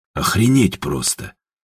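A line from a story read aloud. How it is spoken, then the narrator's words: Mutter. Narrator (Russian): пробормотал Степа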